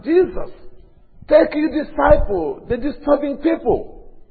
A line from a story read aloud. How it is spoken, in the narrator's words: And the people who are very clever, who don't like to shout, they said that